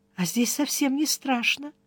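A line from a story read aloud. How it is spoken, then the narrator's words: Quiet. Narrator (Russian): Тихонько сказала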